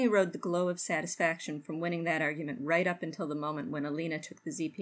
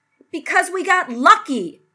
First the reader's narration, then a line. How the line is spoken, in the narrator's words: Rodney yelled